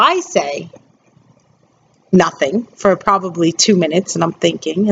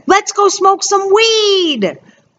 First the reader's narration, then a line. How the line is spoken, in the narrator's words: the one kid, who's not mine, yells